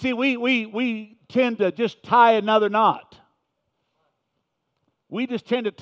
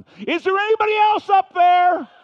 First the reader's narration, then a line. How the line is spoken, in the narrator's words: he started shouting